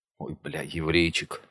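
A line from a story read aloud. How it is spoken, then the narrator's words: Quiet. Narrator (Russian): тихо сказала Ласка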